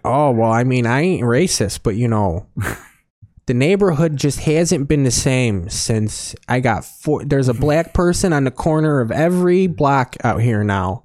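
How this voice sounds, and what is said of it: Exaggerated Chicago accent. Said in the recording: “the Chicago accent ... that voice from your childhood”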